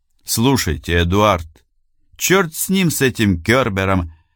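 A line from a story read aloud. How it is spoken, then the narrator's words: Sudden sharp tone. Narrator (Russian): неожиданно резко сказал бургомистр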